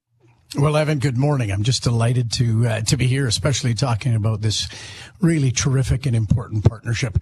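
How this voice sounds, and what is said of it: Slightly raw voice. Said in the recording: “My voice is a little raw after the last few days.”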